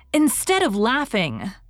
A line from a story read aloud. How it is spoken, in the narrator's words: cried indignantly